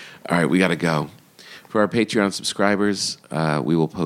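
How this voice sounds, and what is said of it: Usual voice. Nothing is said of it.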